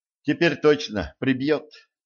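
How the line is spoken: Sigh. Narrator (Russian): вздохнула Кэтран

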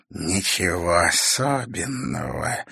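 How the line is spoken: Hoarse female voice. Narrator (Russian): ответил хриплый женский голос

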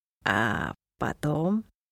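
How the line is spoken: Quiet question. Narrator (Russian): тихо спросил Шут

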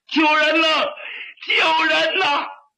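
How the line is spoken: Shouting. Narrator (Chinese): 这一喊

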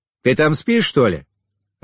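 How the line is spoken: Displeased booming drone. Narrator (Russian): опять прогудел Чингис недовольным голосом

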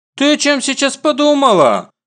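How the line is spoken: Indignant exclamation. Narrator (Russian): возмущённо восклицает она

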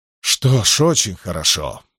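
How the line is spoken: Breathed out. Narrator (Russian): выдохнул Ксантип

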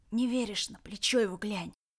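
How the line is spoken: Wheezing. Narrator (Russian): сипел Ред

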